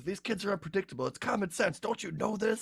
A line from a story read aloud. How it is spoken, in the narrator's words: he was like yelling at me